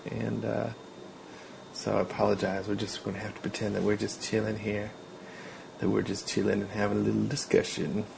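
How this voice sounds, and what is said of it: Quiet, hushed speaking voice. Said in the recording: “if it sounds like my voice is a little bit quiet, it's because it's nighttime here, so I'm trying to trying to keep it down”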